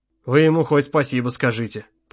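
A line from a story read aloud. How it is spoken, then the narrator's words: Father's mutter. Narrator (Russian): пробормотал отец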